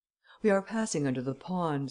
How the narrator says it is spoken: said Devanne, somewhat nervously

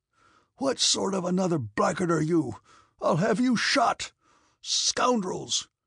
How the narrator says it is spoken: yelled Kutuzov in a hoarse voice, reeling

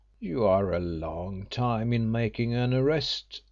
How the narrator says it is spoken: said Crewe in a bantering tone

